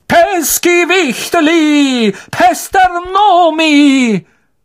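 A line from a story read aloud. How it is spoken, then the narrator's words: Roaring. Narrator (German): brüllte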